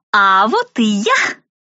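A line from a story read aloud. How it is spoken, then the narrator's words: Loud announcement. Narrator (Russian): громко возвестила она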